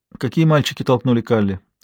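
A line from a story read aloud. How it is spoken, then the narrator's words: Calm question. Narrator (Russian): спокойно спросила Анника у Лотты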